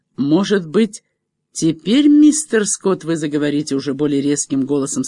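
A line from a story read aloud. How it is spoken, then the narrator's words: Plain. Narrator (Russian): сказал Веламантес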